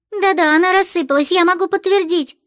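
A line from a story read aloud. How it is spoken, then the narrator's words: Squeaky child voice. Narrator (Russian): запищала малышка Лулу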